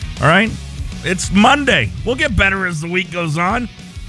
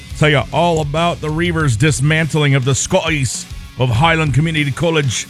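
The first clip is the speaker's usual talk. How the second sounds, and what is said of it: Bad put-on Scottish accent. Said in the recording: “really bad Scottish accent”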